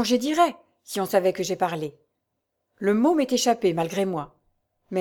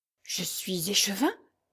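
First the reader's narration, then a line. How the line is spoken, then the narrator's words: Stammering. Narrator (French): balbutia Durand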